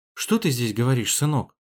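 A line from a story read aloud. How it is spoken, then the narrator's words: Gentle mother's question. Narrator (Russian): мягко спросила мама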